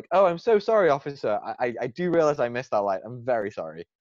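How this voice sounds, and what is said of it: Put-on British accent. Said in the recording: “My, my best British accent”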